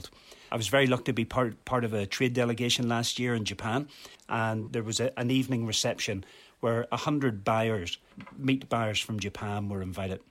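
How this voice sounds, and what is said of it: Non-Scottish accent. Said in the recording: “as you may detect from my accent, I am not Scottish”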